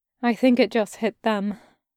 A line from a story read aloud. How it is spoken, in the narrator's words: Davenport murmured